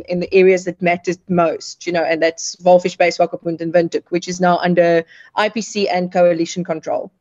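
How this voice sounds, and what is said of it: Afrikaans-sounding accent. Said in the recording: “the accent doesn't give me the impression that you're anything other than perhaps ethnic German or Afrikaans”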